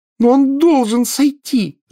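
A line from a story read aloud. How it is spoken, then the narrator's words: Screaming. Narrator (Russian): завопила Гермиона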